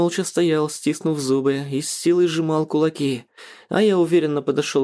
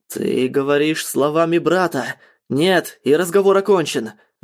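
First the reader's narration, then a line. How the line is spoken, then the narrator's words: Angry growl. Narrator (Russian): разозлившись, зарычал на меня Ратмир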